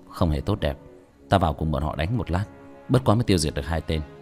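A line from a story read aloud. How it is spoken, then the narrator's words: Soft, after a breath. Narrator (Vietnamese): Tiểu thất nhẹ nhàng thở một hơi, nhẹ giọng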